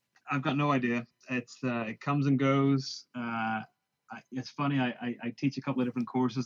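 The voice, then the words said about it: Northern Irish accent mixed with American. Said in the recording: “He's originally from Northern Ireland. He's from a Belfast individual ... go and live in America ... what the hell is the accent? What's that all about?”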